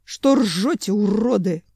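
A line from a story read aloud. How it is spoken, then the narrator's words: Vicious straining growl. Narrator (Russian): злобно зарычал Семен, вцепившись в шерсть и изо всех сил стараясь не соскользнуть в бок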